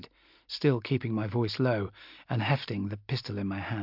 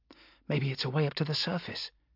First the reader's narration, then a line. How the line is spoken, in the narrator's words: she whispered hopefully